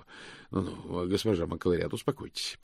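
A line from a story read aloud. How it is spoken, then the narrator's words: Mumbled. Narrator (Russian): пробормотал он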